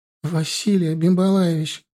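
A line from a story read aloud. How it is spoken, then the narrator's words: Tearful pleading. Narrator (Russian): со слезами взмолилась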